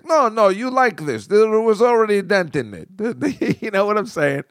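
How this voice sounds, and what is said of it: Put-on foreign accent. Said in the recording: “I don't know where the fuck this guy is from, but I'm doing a pretty good accent.”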